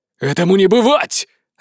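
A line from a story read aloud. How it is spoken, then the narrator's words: Barking. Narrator (Russian): рявкнул Теодор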